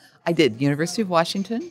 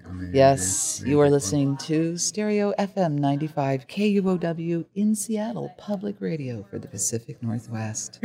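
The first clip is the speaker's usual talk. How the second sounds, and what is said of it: Public radio announcer voice. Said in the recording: “did you have to develop an NPR voice? ... I came with an NPR voice.”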